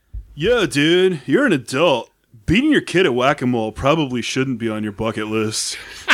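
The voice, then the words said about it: Put-on surfer accent. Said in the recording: “Surfer.”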